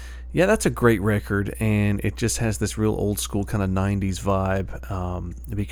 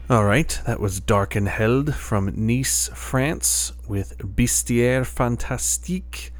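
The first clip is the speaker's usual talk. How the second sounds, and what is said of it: Terrible put-on French accent. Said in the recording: “excuse my terrible French accent there”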